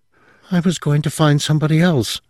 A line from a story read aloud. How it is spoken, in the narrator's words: she gasped